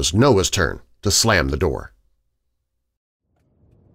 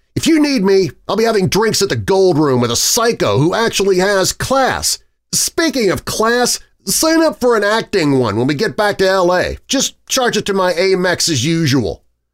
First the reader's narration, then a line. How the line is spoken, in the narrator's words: He screamed